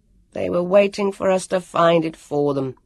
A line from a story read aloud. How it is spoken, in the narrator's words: Jonathan said bitterly